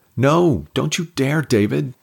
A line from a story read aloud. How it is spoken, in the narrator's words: Jen screamed